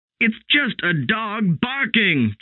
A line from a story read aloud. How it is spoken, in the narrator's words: Judson shouted